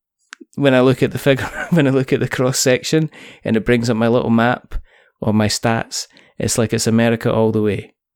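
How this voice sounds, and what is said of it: Scottish accent. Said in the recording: “may contain Scottishness ... a Scottish accent really sells over here in the States”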